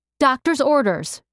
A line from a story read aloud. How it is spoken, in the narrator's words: she yelled